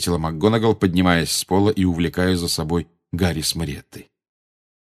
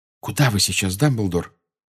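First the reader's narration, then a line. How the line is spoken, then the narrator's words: Whisper. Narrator (Russian): прошептала МакГонагал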